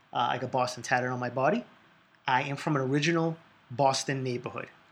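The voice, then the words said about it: Boston accent. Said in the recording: “this accent lets you know I'm from Boston”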